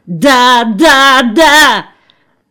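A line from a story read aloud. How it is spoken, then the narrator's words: Frenzied desperate shout. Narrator (Russian): Он исступленно закричал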